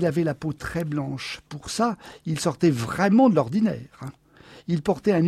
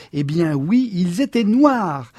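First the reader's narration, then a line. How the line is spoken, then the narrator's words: Exclaiming. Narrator (French): s'exclama-t-elle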